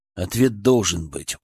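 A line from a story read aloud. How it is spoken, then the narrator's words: Stubborn mutter. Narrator (Russian): упрямо пробормотал я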